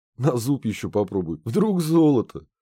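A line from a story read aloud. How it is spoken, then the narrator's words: Giggling. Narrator (Russian): хихикнул Ларс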